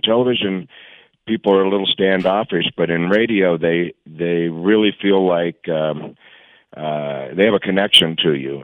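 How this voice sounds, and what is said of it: Hoarse voice. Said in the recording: “I'm a little hoarse today ... I woke up and I'm hoarse.”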